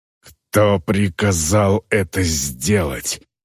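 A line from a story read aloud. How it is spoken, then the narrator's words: Orc woman's growl. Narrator (Russian): прорычала орка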